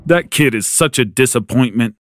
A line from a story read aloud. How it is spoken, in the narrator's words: Dad scoffed